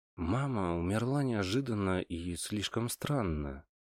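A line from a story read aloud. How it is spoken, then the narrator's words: Quiet, after long silence. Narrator (Russian): тихо проговорил я после долгого молчания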